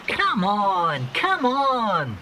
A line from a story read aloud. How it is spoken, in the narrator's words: he cried impatiently